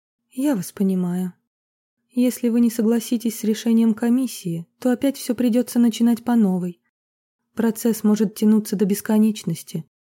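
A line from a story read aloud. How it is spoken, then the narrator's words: Sigh. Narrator (Russian): вздохнула Вероника Павловна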